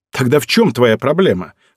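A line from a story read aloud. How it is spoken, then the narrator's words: Snorting. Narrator (Russian): фыркнула она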